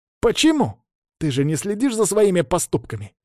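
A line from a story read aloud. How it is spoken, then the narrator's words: Sharp. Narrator (Russian): резко бросил он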